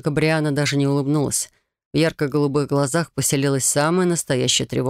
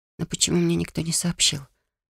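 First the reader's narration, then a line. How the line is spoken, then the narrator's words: Whisper. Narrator (Russian): прошептала она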